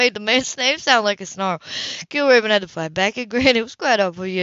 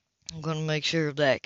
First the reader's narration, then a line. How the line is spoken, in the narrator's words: Kilgrave said quietly